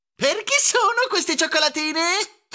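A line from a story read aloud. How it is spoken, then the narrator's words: Shrieked. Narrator (Italian): strillò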